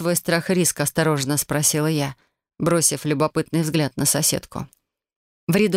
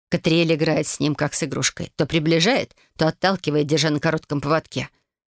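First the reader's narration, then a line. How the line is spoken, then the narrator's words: Growling. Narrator (Russian): прорычала она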